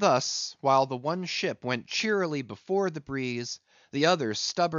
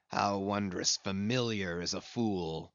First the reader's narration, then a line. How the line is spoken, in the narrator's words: muttered Ahab